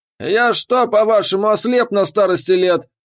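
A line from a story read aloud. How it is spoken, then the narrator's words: Gruff bark. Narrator (Russian): рявкнул Торген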